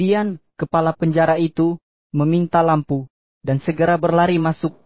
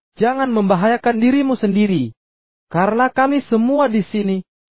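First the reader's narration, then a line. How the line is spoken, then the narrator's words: Loud shout. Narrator (Indonesian): Namun, Paulus berteriak dengan suara keras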